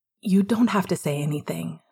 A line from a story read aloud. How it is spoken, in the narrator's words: Sirius said quietly